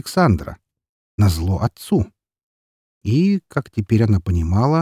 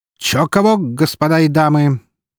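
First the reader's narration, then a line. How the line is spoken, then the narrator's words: Loud, lively announcement. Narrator (Russian): громко и с задором оповестил о своем прибытии Константин Броницкий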